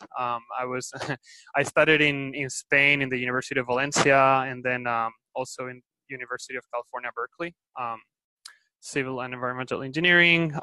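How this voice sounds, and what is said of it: Spanish-accented English. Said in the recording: “I'm originally from Spain, as you can tell by my accent.”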